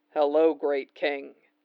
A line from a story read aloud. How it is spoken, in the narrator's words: he murmurs